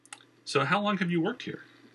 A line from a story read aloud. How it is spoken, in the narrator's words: Christian asked